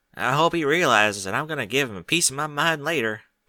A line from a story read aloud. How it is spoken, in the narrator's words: she mumbled